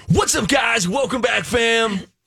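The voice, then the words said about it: Over-the-top manic YouTuber voice. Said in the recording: “over the top, manic in your face ... do a really good impression of them”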